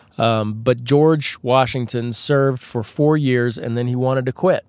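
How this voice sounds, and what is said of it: Husky, dry-throated voice. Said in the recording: “I'm getting a dry throat here ... I apologize for the chronic sexy voice today. I have a little bit of tickle in my throat ... if you're hearing a little bit of, hey girl, what's up in my voice, that is not intentional”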